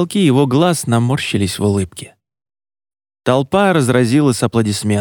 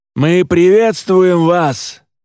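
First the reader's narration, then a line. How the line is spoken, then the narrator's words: Shouted. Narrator (Russian): крикнул отец Едрееля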